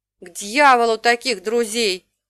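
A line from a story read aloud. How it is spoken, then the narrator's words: Lisping angry outburst. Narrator (Russian): немного шепеляво взорвался Тал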